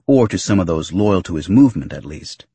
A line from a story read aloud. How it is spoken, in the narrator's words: Typho quickly added